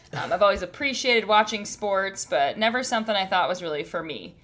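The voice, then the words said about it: Wisconsin Midwestern accent. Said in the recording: “I am from Wisconsin, so you may hear my accent. ... There it is.”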